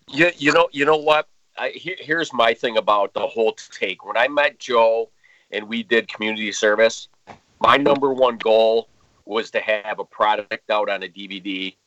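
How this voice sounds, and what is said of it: Upstate New York accent. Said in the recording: “I live in Rochester, New York... I can hear the accent like... absolutely... Totally different”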